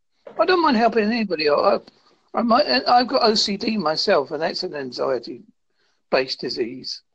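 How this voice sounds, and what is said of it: British accent. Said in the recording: “I'm from the UK ... that explains your accent ... Most people have problems understanding my accent”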